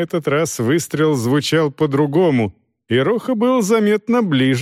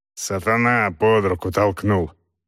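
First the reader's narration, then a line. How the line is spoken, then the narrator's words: Angry mutter. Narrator (Russian): зло буркнул Скарафаджо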